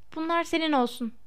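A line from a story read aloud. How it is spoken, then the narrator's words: Muttered. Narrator (Turkish): diye mırıldandı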